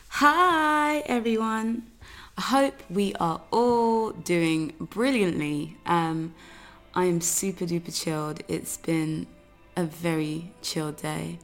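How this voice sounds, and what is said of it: Raspy, relaxed voice. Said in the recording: “You can probably hear my chilled vocal. My voice is quite raspy. I've been using it quite a bit”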